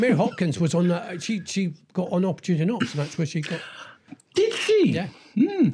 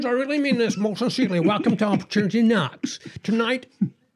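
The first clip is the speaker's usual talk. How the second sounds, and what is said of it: Imitates another person's voice. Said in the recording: “my Hughie Green impression.”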